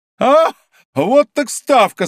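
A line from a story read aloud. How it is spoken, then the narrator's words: Said, bursting into laughter. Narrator (Russian): сказал Д'Артаньян, невольно раздражаясь хохотом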